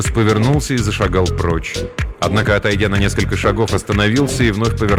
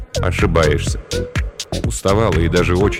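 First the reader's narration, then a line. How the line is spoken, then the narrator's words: Plain. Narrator (Russian): сказал Ирвас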